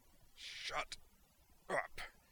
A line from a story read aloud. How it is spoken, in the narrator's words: he snarled